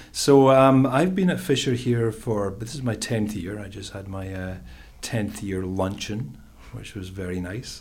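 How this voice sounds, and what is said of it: Scottish accent. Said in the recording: “I'm originally from Scotland, that's the accent”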